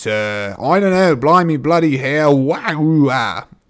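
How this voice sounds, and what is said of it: Put-on British accent. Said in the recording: “Why is an accent happening? Is this an accent? Is it British? ... I was trying to do like 5 accents at once”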